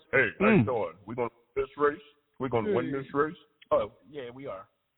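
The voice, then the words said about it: Imitates another person's voice. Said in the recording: “my Elvis impersonation”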